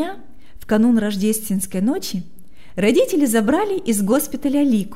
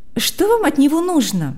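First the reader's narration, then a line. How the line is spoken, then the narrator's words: Irritated question. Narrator (Russian): раздраженно спросила Марьяна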